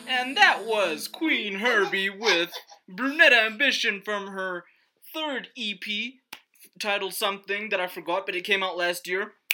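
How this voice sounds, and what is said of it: Radio DJ voice. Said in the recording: “Let me try and do this like a radio guy ... do my radio voice.”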